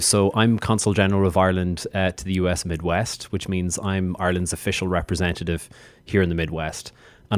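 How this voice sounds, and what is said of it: Irish accent. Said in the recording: “As you can hear from my accent, uh, I'm from Ireland. I'm from the Emerald Isle.”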